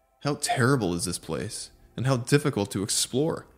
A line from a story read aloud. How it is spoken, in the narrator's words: I exclaimed